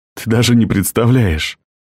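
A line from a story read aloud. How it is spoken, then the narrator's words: Whispering in ear. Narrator (Russian): шептал он ей на ухо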